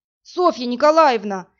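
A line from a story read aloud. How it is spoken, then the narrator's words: Terrible scream. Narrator (Russian): закричал он страшным голосом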